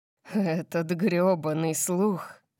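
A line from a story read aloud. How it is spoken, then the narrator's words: Growl without anger. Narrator (Russian): Прорычал он, но в его тоне не было никакого гнева после того, что мы только что сделали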